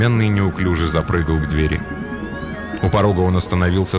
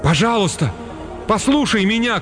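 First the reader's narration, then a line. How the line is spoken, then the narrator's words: Shouted after someone. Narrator (Russian): крикнул Уилл ему вслед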